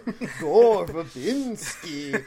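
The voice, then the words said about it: Spooky Count-from-Sesame-Street accent. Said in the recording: “a spooky accent ... that's just the Count from Sesame Street”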